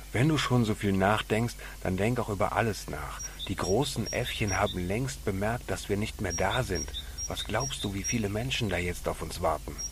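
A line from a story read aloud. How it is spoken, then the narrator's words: Hissing. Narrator (German): fauchte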